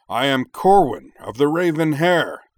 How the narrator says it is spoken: roared

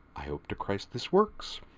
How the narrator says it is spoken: Cochrane muttered

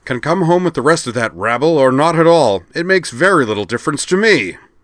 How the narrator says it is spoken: a red-faced, middle-aged man on the room's wall display say angrily

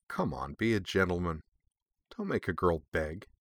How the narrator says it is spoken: said in what was probably supposed to be a seductive murmur

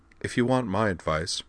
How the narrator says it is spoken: said Dorothy

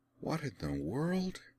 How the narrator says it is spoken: She murmured

